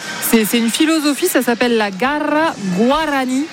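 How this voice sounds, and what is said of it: Practiced foreign accent on a phrase. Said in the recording (French): “Oh, et quel accent. ... Il a été travaillé.”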